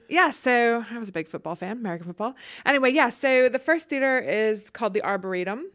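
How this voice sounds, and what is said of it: Mild Southern US accent. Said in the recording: “it's like speaking to someone from Gone with the Wind ... my Southern accent is a bit muted these days”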